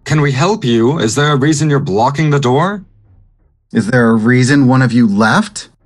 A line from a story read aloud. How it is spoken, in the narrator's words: I'm also gonna yell